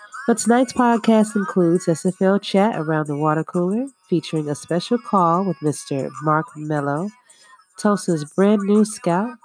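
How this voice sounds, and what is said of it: Slightly funky, sick-sounding voice. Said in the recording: “I, on the other hand, have been sick for the past few days ... if my voice sounds a little bit funky”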